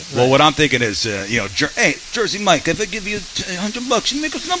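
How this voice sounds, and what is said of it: East Coast Italian stereotype accent. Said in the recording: “East Coast, Italian stereotype. ... Hey, you didn't lose your accent.”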